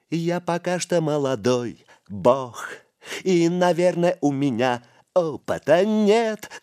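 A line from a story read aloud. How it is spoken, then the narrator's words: Loud off-key singing. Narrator (Russian): громко запел Духарев, безжалостно перевирая слова и мелодию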